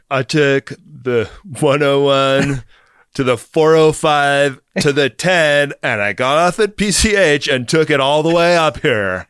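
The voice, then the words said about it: Sharp put-on Californian accent. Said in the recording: “Have you been working on your Californian's accent? It's really sharp.”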